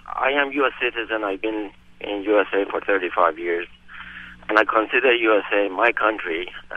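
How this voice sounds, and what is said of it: Iranian accent. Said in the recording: “my country of origin is Iran, and from my accent, you know, it's very similar to your guest host or any other Iranian”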